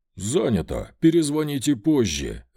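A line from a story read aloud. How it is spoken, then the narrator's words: Growled. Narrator (Russian): рыкнул он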